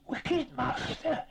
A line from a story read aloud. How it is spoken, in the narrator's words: it hissed